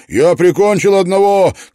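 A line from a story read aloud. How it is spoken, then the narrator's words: Shouting. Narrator (Russian): крикнул он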